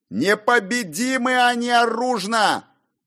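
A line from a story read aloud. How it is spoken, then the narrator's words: Very loud yell. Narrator (Russian): Завопил проповедник так громко, что прохожие стали оглядываться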